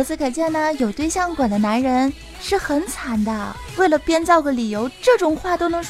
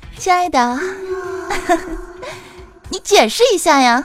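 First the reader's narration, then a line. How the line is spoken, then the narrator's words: Sneering, contemptuous. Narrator (Chinese): 他女朋友冷笑了一声，哼，露出了非常鄙夷的笑容，对他说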